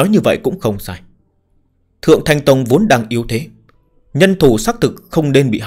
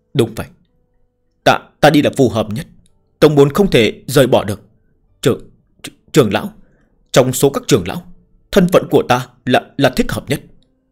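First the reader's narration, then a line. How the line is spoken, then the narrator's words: Stammering. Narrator (Vietnamese): Ngụy Đa lắp bắp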